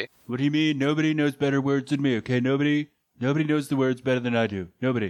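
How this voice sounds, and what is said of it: Imitates another person's voice. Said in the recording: “working on your Trump impression”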